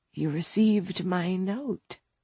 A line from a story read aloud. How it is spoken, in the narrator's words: Isabel said her voice a dry rasp